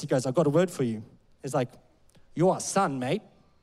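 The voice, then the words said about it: Poor attempted South African accent. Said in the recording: “I'm going to try and do a bit of a South African accent. I'm not very good at accents ... That's a terrible sound.”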